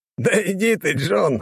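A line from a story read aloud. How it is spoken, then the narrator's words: Laughing. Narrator (Russian): рассмеялся он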